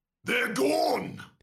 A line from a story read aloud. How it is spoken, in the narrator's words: He shouts